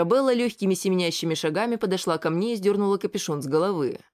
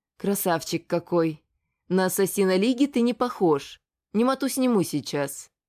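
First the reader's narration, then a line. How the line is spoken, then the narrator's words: Cold. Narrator (Russian): сказала по-прежнему холодно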